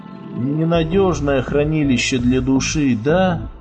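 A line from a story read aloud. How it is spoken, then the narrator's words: Sighing. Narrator (Russian): Гомер вздохнул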